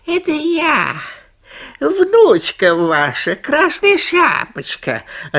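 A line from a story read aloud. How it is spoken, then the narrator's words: Thin high-pitched voice. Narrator (Russian): отвечает волк тоненьким голоском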